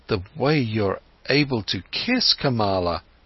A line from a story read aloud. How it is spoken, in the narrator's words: stammered Siddhartha